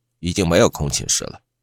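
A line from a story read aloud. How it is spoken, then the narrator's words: Cold. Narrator (Chinese): 宿管冷冷地说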